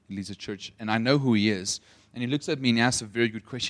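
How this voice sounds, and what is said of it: South African English accent. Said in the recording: “you're from South Africa ... usually if people hear my accent, they never think I'm from South Africa. They usually think I'm from either New Zealand or Australia”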